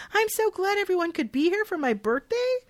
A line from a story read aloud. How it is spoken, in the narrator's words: The birthday girl exclaims